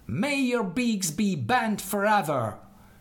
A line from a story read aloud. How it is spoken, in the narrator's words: exclaimed in anger